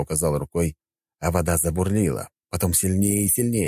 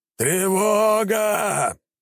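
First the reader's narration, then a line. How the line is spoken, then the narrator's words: Captain shouting. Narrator (Russian): прокричал капитан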